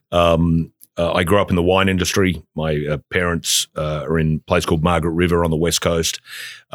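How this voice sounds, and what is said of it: Slight Australian accent. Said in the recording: “you also have this little bit of an accent ... from Australia originally”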